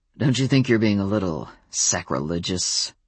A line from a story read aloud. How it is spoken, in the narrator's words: His voice was bitter